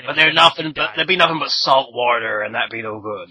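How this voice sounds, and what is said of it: Put-on pirate accent. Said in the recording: “stop talking about pirate accent”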